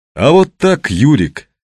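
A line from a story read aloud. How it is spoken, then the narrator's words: Deliberately loud. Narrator (Russian): сказал он нарочито громко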